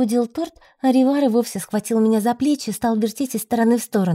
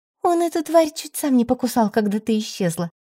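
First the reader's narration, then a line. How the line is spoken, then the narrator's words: Amused snort. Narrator (Russian): хмыкнула Ирина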